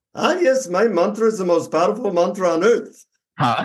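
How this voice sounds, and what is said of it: Put-on Indian accent. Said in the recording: “I'll try my Indian accent ... What was that Hindi accent? ... my Indian accent”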